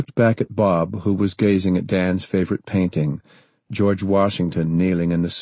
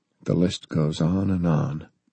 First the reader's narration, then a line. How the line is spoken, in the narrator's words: Bob said softly